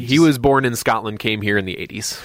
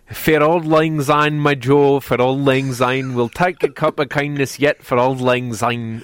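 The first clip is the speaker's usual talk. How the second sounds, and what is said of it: Fairly good put-on Scottish accent. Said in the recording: “read it in the Scots pronunciation guide ... that was pretty good ... I got used to the ear for the accent”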